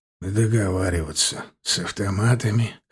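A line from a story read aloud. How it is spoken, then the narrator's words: Skeptical snort. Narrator (Russian): хмыкнул Седой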